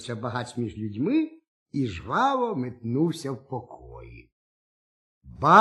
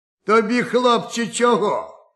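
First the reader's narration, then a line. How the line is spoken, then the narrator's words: Judge's gruff bark. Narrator (Ukrainian): гаркнув суддя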